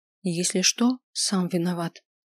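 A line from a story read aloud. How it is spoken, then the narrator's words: Quiet warning. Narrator (Russian): тихо предупредила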